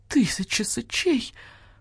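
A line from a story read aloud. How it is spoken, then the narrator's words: Creature howling. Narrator (Russian): взвыл барсукот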